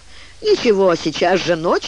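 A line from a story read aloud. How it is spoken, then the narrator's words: Laughing reply. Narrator (Russian): отвечал смеясь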